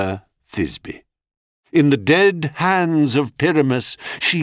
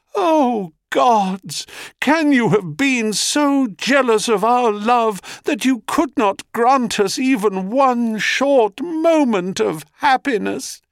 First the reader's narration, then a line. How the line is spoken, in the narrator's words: she cries